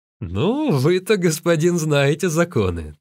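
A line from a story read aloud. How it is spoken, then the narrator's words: Laughing guards. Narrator (Russian): также смеясь отвечали охранники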